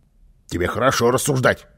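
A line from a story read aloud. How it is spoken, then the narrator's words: Angry grumble. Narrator (Russian): сердито пробурчал Карлсон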